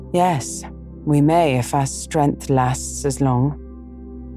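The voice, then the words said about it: Mournful, lamenting voice. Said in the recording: “in a lamentable voice”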